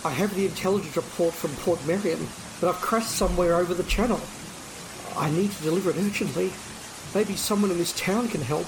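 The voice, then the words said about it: Australian accent. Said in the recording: “Not with that Australian accent.”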